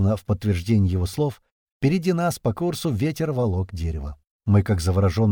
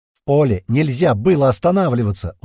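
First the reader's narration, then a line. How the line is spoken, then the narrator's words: Shout. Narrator (Russian): прокричал Бата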